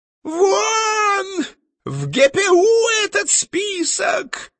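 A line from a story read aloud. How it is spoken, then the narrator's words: Howling tenor. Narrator (Russian): взвыл тенор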